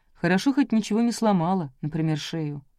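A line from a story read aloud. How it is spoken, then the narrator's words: Gloomy. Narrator (Russian): мрачно сказал Митя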